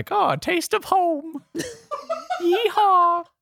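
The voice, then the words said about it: Gritty put-on Southern accent. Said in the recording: “That's like a gritty Southern accent ... Needs more grit ... Oh, that was pretty gritty.”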